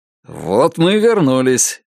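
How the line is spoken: Cheerful. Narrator (Russian): весело проговорил он

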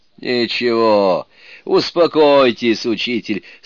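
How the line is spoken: Laughing. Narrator (Russian): сказал, смеясь, Суну-кун

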